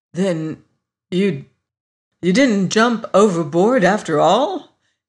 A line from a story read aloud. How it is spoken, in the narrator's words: he faltered, divided between relief and annoyance